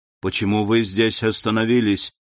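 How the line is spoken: Plain question. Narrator (Russian): спросил господин Депине

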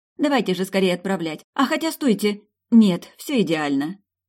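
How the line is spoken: Exclaiming. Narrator (Russian): я снова воскликнула

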